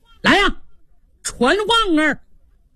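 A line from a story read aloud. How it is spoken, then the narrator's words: Shout. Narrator (Chinese): 冲着门口喊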